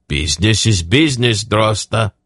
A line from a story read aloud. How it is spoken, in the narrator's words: Yarblick said blandly